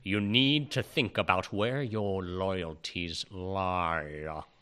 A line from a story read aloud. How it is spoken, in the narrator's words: he says in his Alan Rickmanian voice